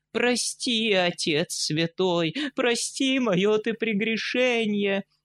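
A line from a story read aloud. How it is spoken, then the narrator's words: Tearful pleading. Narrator (Russian): Так взмолится брамин сквозь слез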